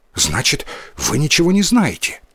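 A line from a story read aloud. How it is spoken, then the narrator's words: Hurried boy's question. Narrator (Russian): торопливо спросил мальчик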